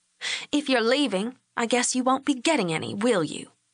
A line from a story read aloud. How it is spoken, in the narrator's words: Lori said, her voice hard